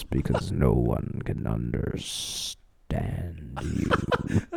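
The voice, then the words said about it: Very low gravelly voice imitation. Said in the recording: “He's got the graveliest voice ever... speaking as low as this... That's such a fucking good impression.”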